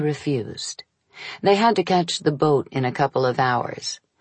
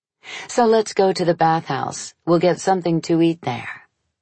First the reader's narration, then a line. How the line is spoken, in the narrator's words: I said